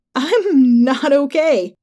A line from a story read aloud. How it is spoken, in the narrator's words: Carly laughed